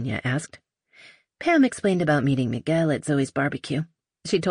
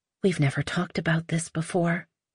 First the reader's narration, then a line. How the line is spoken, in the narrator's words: Olympia murmured